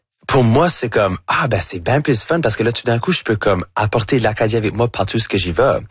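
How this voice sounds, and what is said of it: Acadian French accent. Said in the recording (French): “super acadien, que c'est pas quelque chose que je peux cacher ... votre accent acadien ... J'ai un accent qui va jamais être neutre ... avec mon chiac”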